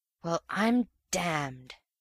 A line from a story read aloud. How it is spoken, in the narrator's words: whispered the real man